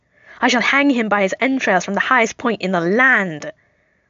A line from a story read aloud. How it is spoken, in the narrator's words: Loki screeches